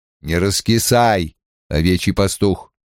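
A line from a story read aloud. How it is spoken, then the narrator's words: Stern. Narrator (Russian): строгим тоном сказал ему Лан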